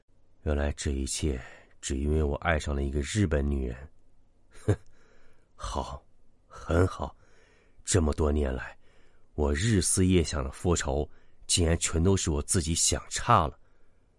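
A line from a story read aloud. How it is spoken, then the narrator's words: Low, stunned voice. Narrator (Chinese): 听了五叔的话，秦三爷半晌没缓过神来，好久他才低声道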